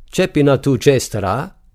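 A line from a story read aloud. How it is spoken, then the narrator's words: Father yelling. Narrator (German): brüllt der Vater das Kind an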